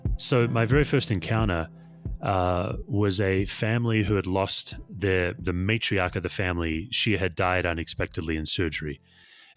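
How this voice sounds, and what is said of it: Rich Australian accent. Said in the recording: “He has a wonderful, rich Australian accent”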